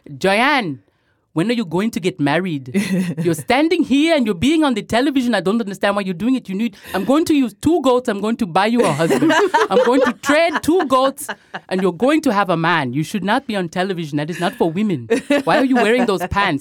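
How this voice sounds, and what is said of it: Imitates her Congolese father's voice. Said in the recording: “a really, really great impression of your father, who you mentioned earlier is from the Congo... my impression of my father”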